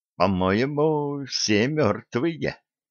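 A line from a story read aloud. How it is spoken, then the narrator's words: Muttered. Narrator (Russian): пробормотал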